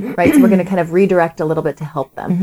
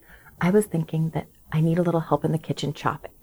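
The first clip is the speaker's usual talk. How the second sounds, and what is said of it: Whispering. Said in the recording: “I'm going to whisper.”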